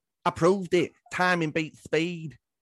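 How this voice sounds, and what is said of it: Imitates another person's voice. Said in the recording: “my Kell Brook impression”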